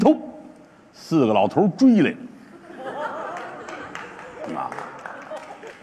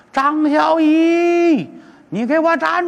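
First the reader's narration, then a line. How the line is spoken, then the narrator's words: Shouting. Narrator (Chinese): 那边喊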